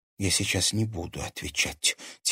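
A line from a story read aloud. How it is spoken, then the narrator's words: Quiet. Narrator (Russian): тихо поинтересовалась она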